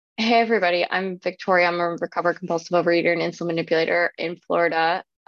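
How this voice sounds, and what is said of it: Sick, rough-sounding voice. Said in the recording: “My voice is a little bit, I'm sick right now. And I have that, like, some people might say sexy, some people might say disease sounding voice.”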